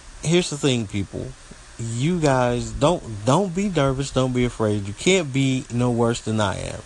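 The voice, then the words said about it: Southern US country accent. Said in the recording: “I'm country. Live down here in the Southeast United States, and I'm country. Sometimes my country accent comes out”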